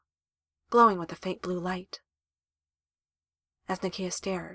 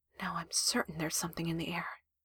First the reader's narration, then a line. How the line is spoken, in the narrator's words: Nakia heard herself whisper